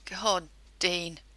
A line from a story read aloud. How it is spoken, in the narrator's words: moan and whimper out small sound in between wet, crushing kisses